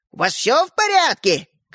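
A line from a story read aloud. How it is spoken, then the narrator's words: Grandmother calling from another room. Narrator (Russian): крикнула бабушка из прихожей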